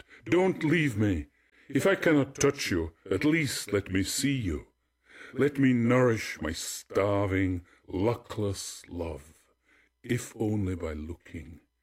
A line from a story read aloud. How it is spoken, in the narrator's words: He cried after it